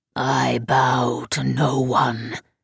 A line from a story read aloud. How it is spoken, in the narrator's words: it rasped